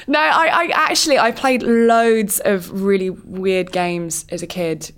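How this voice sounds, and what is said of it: Usual voice. Nothing is said of it.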